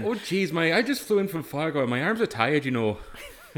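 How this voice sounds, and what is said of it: Put-on Minnesotan accent. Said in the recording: “we all now have authentic Minnesotan accents”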